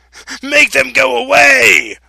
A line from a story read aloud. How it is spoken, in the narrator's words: Pharaoh screamed